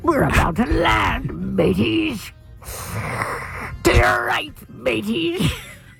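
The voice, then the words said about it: Exaggerated Irish pirate accent. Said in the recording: “we're Irish pirates with an Irish accent... I know I sound like a Lucky Charms commercial.”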